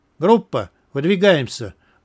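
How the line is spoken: Loud command. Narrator (Russian): громко скомандовал Скворец

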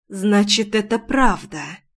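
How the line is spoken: Dull muffled reply. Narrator (Russian): Глухо отозвалась

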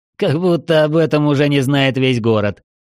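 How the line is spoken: Proud snort. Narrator (Russian): гордо фыркнул Артем

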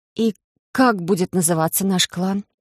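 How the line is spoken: Tired exhale. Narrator (Russian): Устало выдохнула я, когда отнявший уйму энергии ритуал завершился

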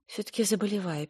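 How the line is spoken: Sad. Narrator (Russian): печально констатировала она

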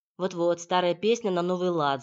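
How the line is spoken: Angry retort. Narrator (Russian): зло отпарировал Борька

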